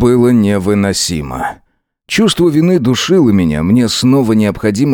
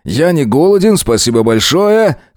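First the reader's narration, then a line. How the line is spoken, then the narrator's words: Shouted. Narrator (Russian): крикнул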